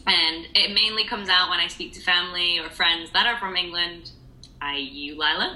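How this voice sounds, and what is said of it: Harsh Yorkshire British accent. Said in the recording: “I have a strong British accent, but it's actually a Yorkshire accent. So it's a harsh British accent.”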